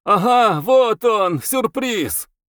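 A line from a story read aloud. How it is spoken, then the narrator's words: Cheerful shout. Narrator (Russian): весело крикнул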